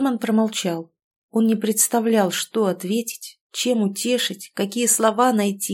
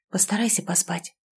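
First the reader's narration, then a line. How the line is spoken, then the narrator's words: Whisper into ear. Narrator (Russian): шепнул он в маленькое ухо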